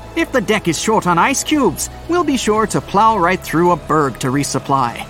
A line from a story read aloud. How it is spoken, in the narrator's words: a sailor laughed